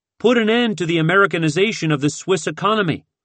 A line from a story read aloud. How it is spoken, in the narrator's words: another shouted